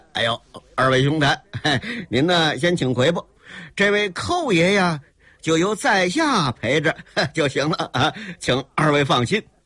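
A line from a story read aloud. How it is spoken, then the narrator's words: Smiling. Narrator (Chinese): 含笑的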